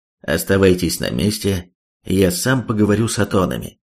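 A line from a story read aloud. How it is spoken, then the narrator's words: Crisp confident command. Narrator (Russian): Четким, уверенным голосом Робин приказал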